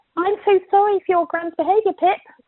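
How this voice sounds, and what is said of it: Weak attempt at Ruth's accent. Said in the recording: “Can't do the accent.”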